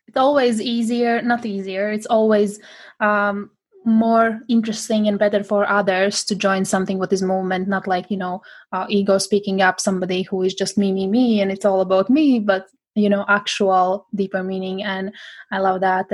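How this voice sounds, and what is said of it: Non-native English accent. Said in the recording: “probably you can hear my accent. I'm not English speaking person. English is my third language.”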